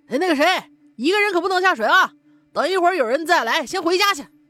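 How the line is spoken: Kindly call. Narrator (Chinese): 一个人站在水边上，好心的喊了一句

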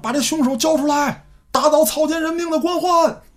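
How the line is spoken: Chanted slogans. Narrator (Chinese): 喊口号

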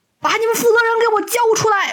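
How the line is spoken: Angry shouting. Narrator (Chinese): 一个阿姨怒气冲冲的喊

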